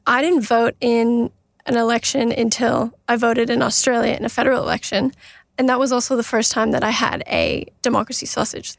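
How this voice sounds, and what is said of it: Canadian English accent. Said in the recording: “if my accent doesn't give it away, I'm Canadian”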